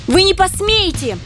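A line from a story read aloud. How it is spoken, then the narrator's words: Shrill thin squeal. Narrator (Russian): неожиданно тонким голоском заверещала Лия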